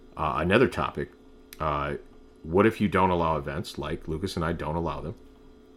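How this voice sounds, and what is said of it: Usual voice. Nothing is said of it.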